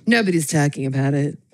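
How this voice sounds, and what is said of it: Imitates another person's voice. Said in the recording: “super rare 45th president impersonation”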